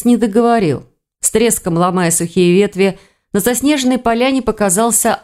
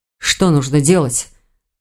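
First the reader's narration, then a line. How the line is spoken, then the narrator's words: Dull muttering. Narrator (Russian): глухо пробормотал Рейн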